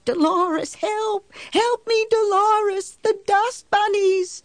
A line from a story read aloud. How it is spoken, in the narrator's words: she went on screaming